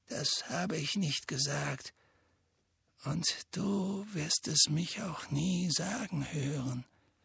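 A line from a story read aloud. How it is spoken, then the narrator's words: Quiet reply. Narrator (German): erwiderte Dumbledore leise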